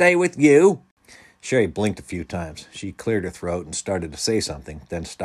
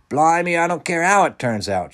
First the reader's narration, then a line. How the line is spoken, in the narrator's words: shouted Wendell